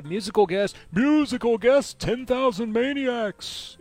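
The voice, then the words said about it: Imitates a TV announcer's voice. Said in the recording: “in my best Don Pardo voice”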